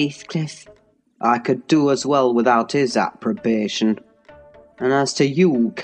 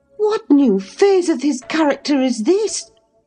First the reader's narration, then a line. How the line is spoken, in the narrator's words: exclaimed Mrs